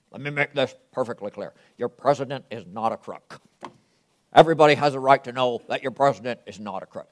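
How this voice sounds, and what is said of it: Imitates another person's voice. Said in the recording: “great impersonation of President Nixon”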